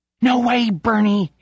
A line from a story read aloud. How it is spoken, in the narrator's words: he pants